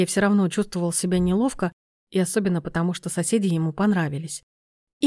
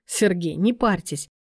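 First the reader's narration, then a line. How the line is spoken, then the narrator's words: Amused snort. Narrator (Russian): хмыкнул Виктор Васильевич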